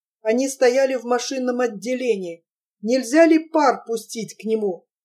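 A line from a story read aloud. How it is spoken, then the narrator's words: Desperate mumble. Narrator (Russian): с отчаянием промямлил Струмил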